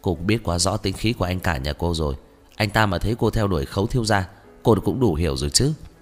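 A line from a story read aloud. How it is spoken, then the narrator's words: Cold. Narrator (Vietnamese): Thương Chủ Ý lạnh lùng nói với Dương Miêu Miêu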